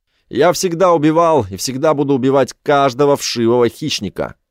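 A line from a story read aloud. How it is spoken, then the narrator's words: Shouting. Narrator (Russian): кричал он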